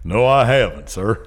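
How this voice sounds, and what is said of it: Put-on Southern American accent. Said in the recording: “He's got the southern accent... He's just working on his southern accent”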